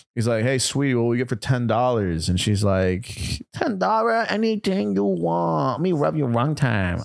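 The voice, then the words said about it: Put-on accent. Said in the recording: “I'm allowed to do that accent”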